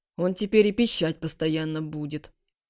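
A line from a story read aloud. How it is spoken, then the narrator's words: Grumbling. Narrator (Russian): пробурчал Чуньгуан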